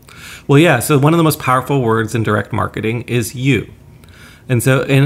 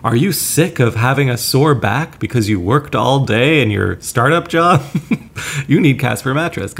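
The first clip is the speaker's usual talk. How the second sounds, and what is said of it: Late-night infomercial announcer voice. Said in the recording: “I'm putting on this infomercial voice”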